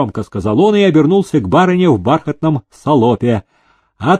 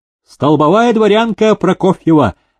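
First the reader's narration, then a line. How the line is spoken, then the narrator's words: Proud and angry. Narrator (Russian): горделиво и зло отозвалась барыня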